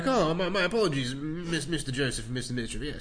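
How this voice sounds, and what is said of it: Pompous put-on British accent. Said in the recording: “It's just a bit of a British accent I've put on now... He's just a bit pompous”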